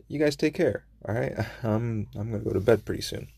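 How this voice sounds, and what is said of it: Sounds a little tired. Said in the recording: “I sound a little tired”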